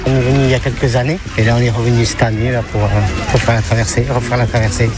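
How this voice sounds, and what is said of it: Slight sing-song regional French accent. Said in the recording (French): “Il y a comme un petit accent chantant.”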